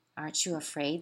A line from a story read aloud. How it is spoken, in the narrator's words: they asked